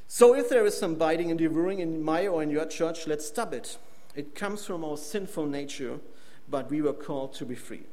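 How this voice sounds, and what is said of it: Strong non-native English accent. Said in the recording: “it was very complicated to hear my accent”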